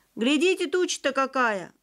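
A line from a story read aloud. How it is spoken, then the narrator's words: Shout. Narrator (Russian): крикнул учетчик Петя Дроздов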